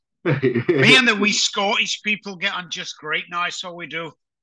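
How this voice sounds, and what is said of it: Poor put-on Scottish accent, sounds Irish. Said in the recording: “That was a terrible Scottish accent. ... It was terrible. It was more of an Irish, Northern Irish.”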